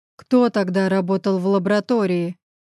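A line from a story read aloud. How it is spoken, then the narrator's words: Growled. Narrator (Russian): прорычал Гриша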